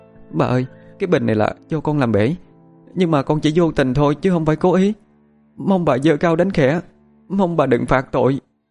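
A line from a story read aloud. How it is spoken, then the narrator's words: Sobbing, pleading. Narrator (Vietnamese): Cô khóc lóc thảm thiết, giọng nói khẩn khoản cầu xin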